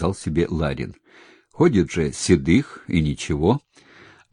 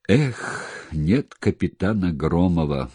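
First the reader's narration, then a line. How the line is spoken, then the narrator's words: Sighing. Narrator (Russian): вздохнул однажды Седых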